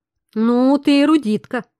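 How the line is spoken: Slightly mocking drawl. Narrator (Russian): чуть насмешливо притянул мужчина

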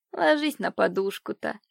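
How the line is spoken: Gentle command. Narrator (Russian): велела ласково няня девочки

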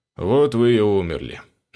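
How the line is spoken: Lazy, bored devil. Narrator (Russian): начал черт лениво и скучно

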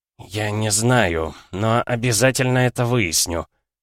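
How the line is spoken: Through gritted teeth. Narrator (Russian): сквозь зубы цедит Грег

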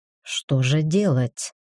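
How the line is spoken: Muttering. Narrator (Russian): пробормотал я

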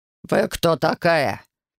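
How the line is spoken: Growled. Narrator (Russian): прорычал Седой

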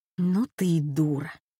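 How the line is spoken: Breathed out. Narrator (Russian): выдохнула Катя

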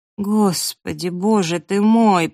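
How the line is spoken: Moaned. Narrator (Russian): простонала я

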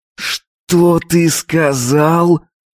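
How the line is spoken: Hiss through clenched jaw. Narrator (Russian): Процедил, сжав челюсти

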